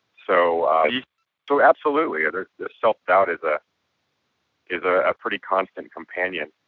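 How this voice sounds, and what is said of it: Hoarse voice. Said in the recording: “part of the reason for my hoarse voice right now is that I actually had to get quite drunk last night”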